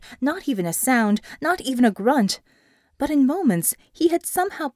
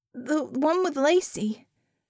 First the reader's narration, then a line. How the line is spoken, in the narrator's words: she stammered